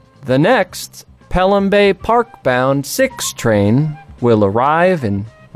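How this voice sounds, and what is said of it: Imitates a subway announcer's voice. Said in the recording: “I did slip it into an impersonation there at the end ... You know who I almost impersonated? ... The man who does the subway announcements for the MTA.”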